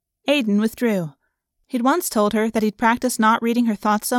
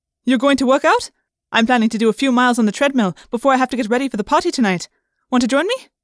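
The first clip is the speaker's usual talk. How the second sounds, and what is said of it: Chipper voice with Indian accent. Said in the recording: “her chipper voice seasoned with her Indian accent”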